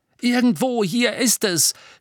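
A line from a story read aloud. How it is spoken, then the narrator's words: Shouted. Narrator (German): schrie Harry ihr zu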